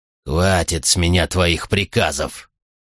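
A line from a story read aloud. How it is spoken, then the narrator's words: Growl. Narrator (Russian): прорычал Артакс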